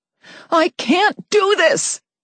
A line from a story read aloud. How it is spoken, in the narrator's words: I shouted